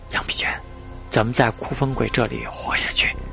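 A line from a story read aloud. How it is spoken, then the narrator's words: Low voice. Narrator (Chinese): 陈兰低声说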